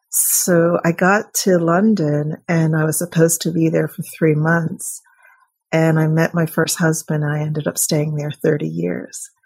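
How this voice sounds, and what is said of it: American accent with British traces. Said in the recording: “words that don't really sound American, and my accent's still a bit funny”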